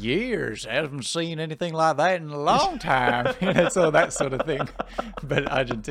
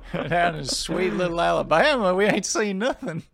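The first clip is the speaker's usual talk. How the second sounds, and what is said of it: Put-on Southern US accent. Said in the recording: “South of the USA.”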